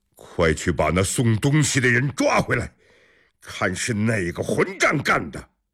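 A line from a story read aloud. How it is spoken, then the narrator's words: Angry, loud. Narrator (Chinese): 陈怀亮一脸恼怒，大声说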